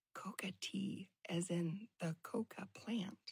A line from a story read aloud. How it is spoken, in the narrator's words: whispered in my ear